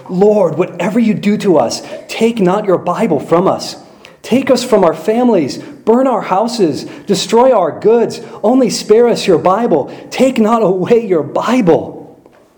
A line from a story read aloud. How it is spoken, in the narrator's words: cries and pleads most earnestly